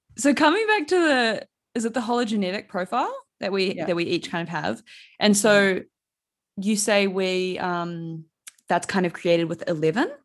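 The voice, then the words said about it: New Zealand accent. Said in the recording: “that's probably my Kiwi 11, accent coming through”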